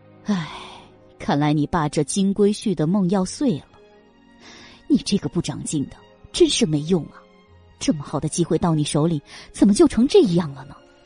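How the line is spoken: Reluctant frowning sigh. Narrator (Chinese): 梁芬皱眉，半天才叹了一声

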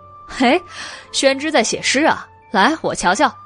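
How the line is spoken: Laughing. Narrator (Chinese): 笑道

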